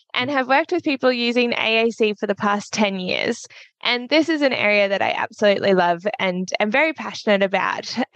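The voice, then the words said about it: Australian accent. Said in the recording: “a certified practicing speech pathologist from Australia ... You can tell by my accent that is not the case. From Australia”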